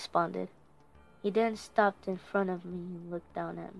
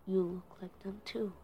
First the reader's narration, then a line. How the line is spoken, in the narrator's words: mumble